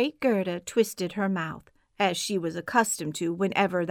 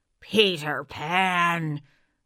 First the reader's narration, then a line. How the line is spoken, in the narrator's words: she snarled